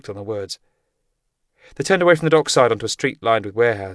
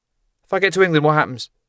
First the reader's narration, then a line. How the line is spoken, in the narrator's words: asked nervously